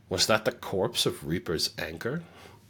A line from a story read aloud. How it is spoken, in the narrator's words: Andrew laughed grimly